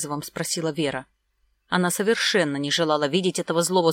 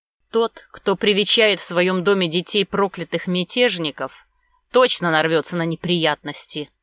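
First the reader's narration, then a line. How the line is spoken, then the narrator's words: Angry nobleman declaring. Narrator (Russian): заявил зло боярин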